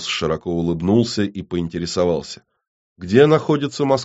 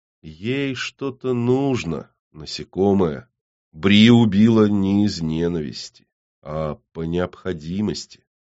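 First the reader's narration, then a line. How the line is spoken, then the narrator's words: Drawling. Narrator (Russian): Ленка протянула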